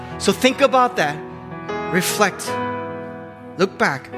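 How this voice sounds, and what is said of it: Usual voice. Nothing is said of it.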